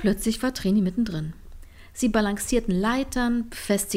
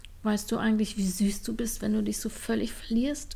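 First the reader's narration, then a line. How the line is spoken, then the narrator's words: Murmuring. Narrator (German): murmelte Trini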